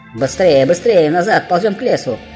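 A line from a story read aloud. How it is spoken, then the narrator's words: Breathless shout. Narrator (Russian): Задыхаясь, кричал Трампик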